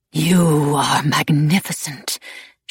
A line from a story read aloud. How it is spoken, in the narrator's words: she breathed